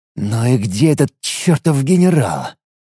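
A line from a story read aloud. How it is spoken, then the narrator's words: Muttering. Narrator (Russian): Бормотал он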